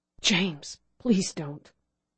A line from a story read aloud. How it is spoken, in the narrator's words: Fred whispered